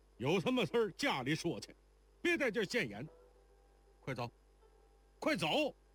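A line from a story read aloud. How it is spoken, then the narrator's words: Old man, loud. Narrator (Chinese): 那老头高声道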